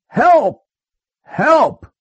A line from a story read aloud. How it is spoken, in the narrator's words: The wolf yelled